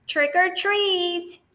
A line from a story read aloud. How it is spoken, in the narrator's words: they yelled